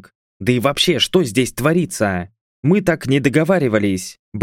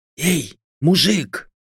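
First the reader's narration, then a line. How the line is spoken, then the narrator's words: Whispered call. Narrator (Russian): Я попробовал позвать одного из пленников шепотом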